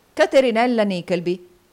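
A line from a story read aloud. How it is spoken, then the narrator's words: Exclamation from behind. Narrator (Italian): esclamò una voce dietro di lui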